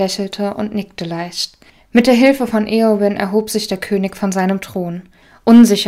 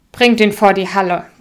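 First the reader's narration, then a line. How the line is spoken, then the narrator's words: Firm command. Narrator (German): befahl Theoden mit fester Stimme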